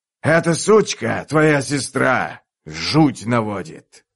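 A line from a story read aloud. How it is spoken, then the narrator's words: Growl. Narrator (Russian): прорычал Каллор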